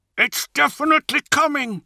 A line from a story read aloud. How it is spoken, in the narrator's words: said Zahariel through gritted teeth